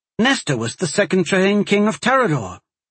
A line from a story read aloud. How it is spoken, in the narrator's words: Ariana exclaimed